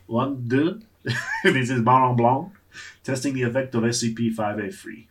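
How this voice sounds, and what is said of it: Put-on French accent. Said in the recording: “my expert French accent that I learned in high school”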